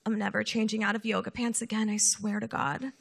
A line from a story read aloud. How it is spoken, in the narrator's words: muttering to herself